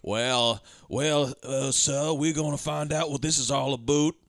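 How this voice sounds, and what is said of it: Mixed Canadian and Southern accent. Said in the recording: “He's doing like Canadian and Southern at the same time because he can't shake the aboots.”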